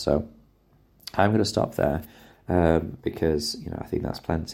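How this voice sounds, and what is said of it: Strained, struggling voice. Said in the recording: “my voice is struggling, if you haven't noticed”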